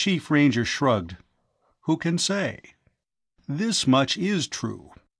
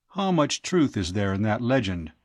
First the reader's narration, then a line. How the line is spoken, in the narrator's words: Tao asked